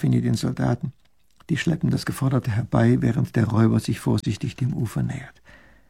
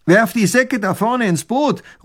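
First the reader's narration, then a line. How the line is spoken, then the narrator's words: Calling out. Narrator (German): ruft der Räuber tunlich gut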